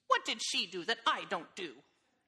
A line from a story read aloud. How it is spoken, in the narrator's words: said the man crossly